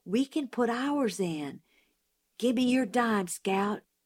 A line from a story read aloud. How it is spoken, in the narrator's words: Jim whispered